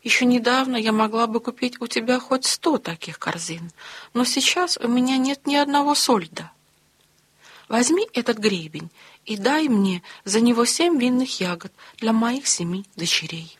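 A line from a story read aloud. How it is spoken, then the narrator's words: Sighing reply. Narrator (Russian): ответила, вздохнув королева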